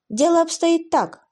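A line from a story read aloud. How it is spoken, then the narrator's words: Sighing. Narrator (Russian): сказал Джейсон, вздохнув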